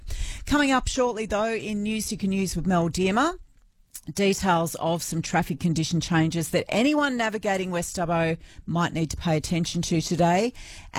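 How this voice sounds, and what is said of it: Slightly croaky throaty voice. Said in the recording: “I've got a bit of a frog in my throat.”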